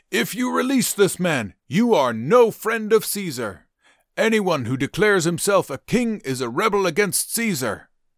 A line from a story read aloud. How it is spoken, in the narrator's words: the Jewish leaders shouted